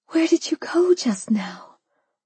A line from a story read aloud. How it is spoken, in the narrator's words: I whispered